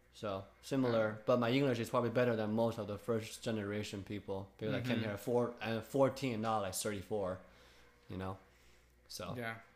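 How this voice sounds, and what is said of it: Slight non-native accent in English. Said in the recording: “There's some accent.”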